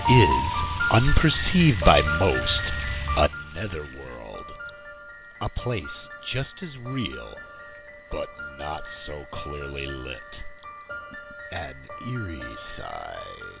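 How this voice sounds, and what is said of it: Creepy, eerie narrator voice. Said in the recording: “who was that creepy voice?”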